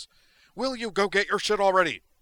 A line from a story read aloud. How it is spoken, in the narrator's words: he cried at Zoner